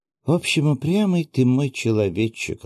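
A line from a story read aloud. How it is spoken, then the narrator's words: Affectionate. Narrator (Russian): ласково проговорила Акая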